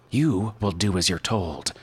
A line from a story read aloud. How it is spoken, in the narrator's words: he barked, so crisp his teeth snapped together with an unpleasant, brittle sound